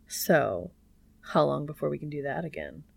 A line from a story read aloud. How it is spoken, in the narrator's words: Cass chuckles